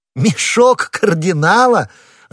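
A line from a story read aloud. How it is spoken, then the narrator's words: Laughing. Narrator (Russian): расхохотавшись, сказал Д'Артаньян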